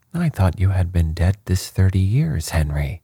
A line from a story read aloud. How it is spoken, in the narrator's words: said she, in a shaking voice